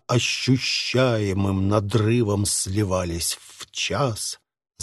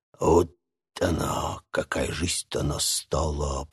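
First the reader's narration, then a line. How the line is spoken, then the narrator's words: Old man's barely audible grumble. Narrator (Russian): пробурчал старик, едва слышно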